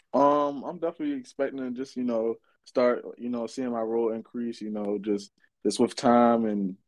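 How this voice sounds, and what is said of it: Baltimore accent. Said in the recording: “The Baltimore accent ... I seen you from Baltimore. I said, here we go with that accent ... I really got a crazy accent ... yours ain't as bad”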